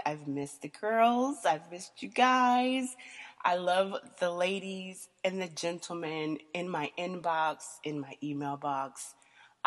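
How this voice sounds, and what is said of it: Congested, sinus-affected voice. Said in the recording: “pollen is still kicking my ass, so I really don't know if y'all have ever actually heard what my voice like really sounds like... these sinuses are insane... Sexy voice”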